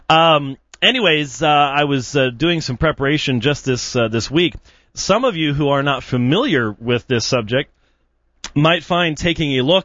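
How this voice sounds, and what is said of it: Georgia Southern US accent. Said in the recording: “my Georgia accent was good”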